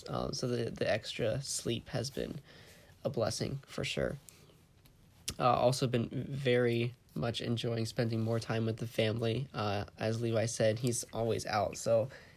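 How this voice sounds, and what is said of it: Sick-sounding voice. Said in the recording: “I am a little sick at the moment. Maybe you can hear that in my voice.”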